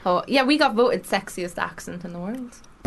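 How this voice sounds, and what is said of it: Irish accent. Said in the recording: “Yous have an Irish accent today. ... I feel like I sound like a granny. I have an Irish granny accent.”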